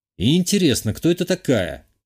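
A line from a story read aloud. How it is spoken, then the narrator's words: Thoughtful question. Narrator (Russian): задумчиво спросил я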